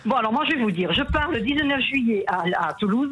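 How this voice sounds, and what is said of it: Southern French Albi accent. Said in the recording (French): “l'accent en plus, l'accent d'Albi”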